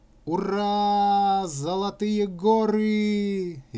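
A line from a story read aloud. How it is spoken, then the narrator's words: Cheerful yelling. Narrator (Russian): весело завопил Колька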